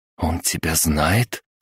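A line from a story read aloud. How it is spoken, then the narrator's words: Whispered. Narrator (Russian): прошептала Мария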